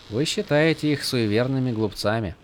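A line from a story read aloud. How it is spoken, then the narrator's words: Quiet remark. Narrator (Russian): Негромко заметила Шалан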